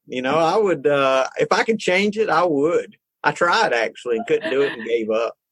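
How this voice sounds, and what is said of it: Thick regional accent. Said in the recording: “Isn't your accent thick? ... Oh, God, it's awful. ... It's awful totally accent.”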